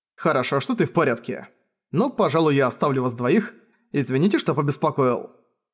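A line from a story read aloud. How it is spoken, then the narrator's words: Remark after laughing. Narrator (Russian): Сион, посмеявшись, заметил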